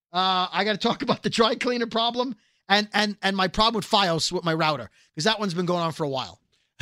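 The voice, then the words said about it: Hoarse, strained, losing voice. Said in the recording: “You're going to talk about losing your voice,”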